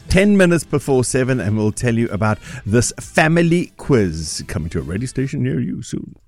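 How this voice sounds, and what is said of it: Announcer-style radio voice. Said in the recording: “That was my radio voice. ... Love your radio voice.”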